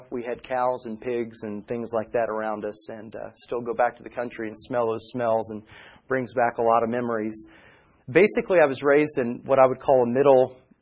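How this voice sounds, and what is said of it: Southern American accent. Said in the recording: “So now I have a nice southern accent.”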